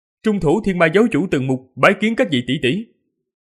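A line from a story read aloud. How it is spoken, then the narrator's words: Raised voice. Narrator (Vietnamese): Từng Mục cao giọng nói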